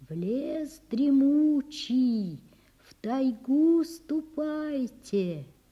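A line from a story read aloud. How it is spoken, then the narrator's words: Barely audible whisper. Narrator (Russian): Прошептал едва слышно ветер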